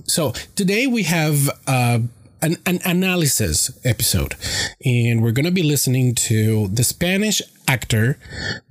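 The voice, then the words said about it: Congested, slightly strange-sounding voice. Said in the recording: “my nose gets a little congested, and you know, I have a little bit of difficulty breathing... my voice sounds a little bit strange”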